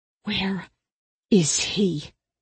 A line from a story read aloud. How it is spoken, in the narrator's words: she hissed